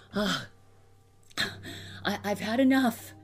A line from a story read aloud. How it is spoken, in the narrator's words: he gasped